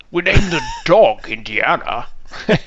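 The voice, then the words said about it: Put-on Scottish accent. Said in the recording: “If I said in a Scottish accent, would that?”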